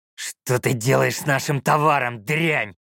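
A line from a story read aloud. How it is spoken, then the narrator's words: Abrupt growl. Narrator (Russian): без предисловий зарычал тот, что шел в центре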